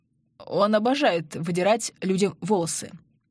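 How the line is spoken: Hoarse voice. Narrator (Russian): хрипло проговорил Андрей

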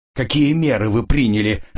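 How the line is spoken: Shouting. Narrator (Russian): закричал он

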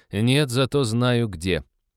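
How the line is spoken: Snorting. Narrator (Russian): Лиза хмыкнула

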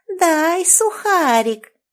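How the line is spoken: Thin nasty girl's voice. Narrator (Russian): противным тонким голоском попросила одна из девочек

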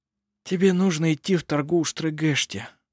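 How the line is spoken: Sad. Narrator (Russian): печально произнес жено

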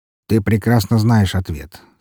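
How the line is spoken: Calm reply. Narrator (Russian): спокойно отозвался Уваров

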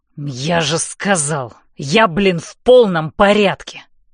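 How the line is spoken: Angry snapping. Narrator (Russian): злобно огрызается Хардин

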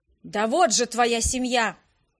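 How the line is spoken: Barked shout. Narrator (Russian): рявкнул Фалхерт

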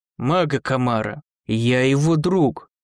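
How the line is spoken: Growl. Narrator (Russian): прорычал Дзирт

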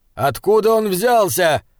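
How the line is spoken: Shout through heavy rain. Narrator (Russian): крикнул герцогу Айнскалдер, невидимый из-за стены ливня

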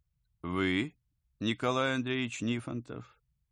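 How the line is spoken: Pleasant deep voice. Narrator (Russian): Приятным и глубоким голосом спросил он наконец

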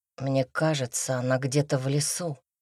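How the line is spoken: Quiet. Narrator (Russian): тихо произнес Никита

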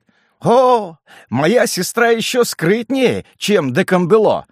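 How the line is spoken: Laughing young man. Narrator (Russian): отвечал молодой депутат, смеясь

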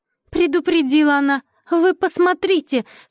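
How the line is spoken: Shouting after someone. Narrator (Russian): кричала вслед Параше Настасья

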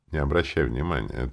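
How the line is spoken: Quiet reply. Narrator (Russian): так же тихо ответил я ей

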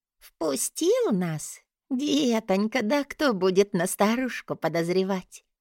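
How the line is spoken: Giggling. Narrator (Russian): хихикнула

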